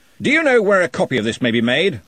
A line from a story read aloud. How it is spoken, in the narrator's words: said Ridcully loudly